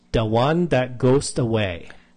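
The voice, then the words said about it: Put-on accent on film title. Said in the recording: “Do you have to do it in that accent? ... So it seems like I'm accenting it”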